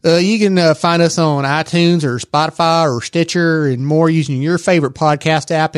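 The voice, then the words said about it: Texas accent. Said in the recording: “listen to what this guy sounds like. His listen to his Texas accent. Uh, if you want to listen for more of my Texas accent.”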